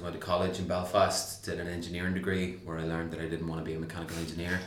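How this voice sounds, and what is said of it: Northern Irish accent. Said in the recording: “you'll hear from my accent. I'm from Northern Ireland originally”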